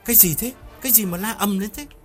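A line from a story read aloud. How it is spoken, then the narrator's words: Irritated question. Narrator (Vietnamese): Hiếu gắt lên hỏi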